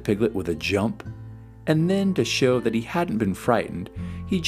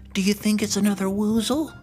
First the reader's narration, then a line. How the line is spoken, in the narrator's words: cried Piglet